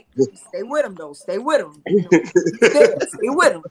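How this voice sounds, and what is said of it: Imitates another person's voice. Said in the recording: “that was a great impression of Wally.”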